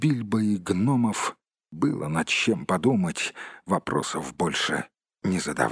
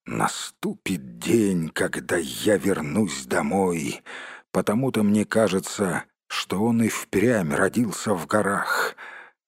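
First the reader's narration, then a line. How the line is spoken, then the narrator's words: Quiet grumbling under breath. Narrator (Russian): тихонько ворчал себе под нос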